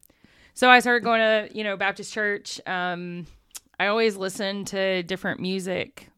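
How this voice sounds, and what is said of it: Southern US accent. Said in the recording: “I grew up in a very, very small southern town ... my southern accent apparently really coming out right now”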